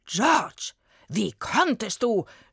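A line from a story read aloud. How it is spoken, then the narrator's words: Furious shout. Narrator (German): schrie William völlig aufgebracht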